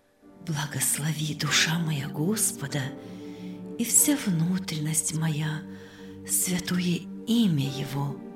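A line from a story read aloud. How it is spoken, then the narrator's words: Repeated whispering. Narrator (Russian): шептала она снова и снова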